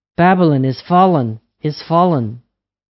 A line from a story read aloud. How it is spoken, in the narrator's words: he cried